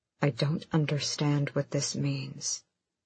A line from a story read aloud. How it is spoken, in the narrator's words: Manon said quietly